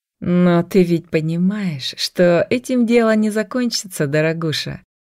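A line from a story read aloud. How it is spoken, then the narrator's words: Promising purr. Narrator (Russian): Многообещающе мурлыкнула она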